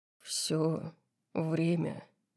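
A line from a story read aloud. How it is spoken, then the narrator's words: Low growling voice. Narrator (Russian): ответил он низким рычащим голосом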